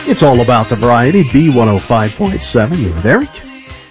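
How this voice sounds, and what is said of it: Voice cracks mid-phrase. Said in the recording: “My voice cracked a little bit there. Is that puberty again?”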